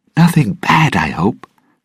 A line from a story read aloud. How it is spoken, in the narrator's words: Ragetti said nervously